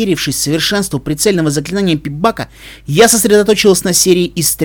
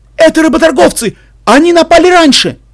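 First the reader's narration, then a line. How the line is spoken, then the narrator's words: Someone shouting from below. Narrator (Russian): Снизу кто-то закричал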